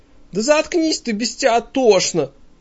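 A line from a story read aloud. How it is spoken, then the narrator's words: Shrieking, colorless star. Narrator (Russian): взвизгивает бесцветная звезда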